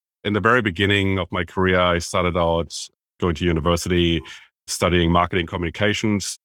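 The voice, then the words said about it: German accent. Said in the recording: “as you can tell by my accent, originally from Germany”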